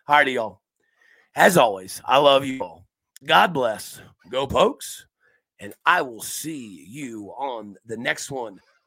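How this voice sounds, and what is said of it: Strained, rough-sounding voice. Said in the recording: “as you guys can hear, the voice is kind of a little wild today ... my voice is trying to take vacation for me”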